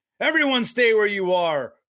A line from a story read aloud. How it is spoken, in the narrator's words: Proofrock shouts